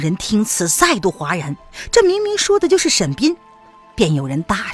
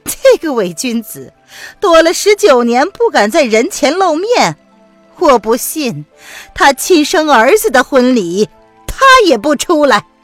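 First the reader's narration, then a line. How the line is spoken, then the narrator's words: Sweet smile. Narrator (Chinese): 谭台嫣然笑着道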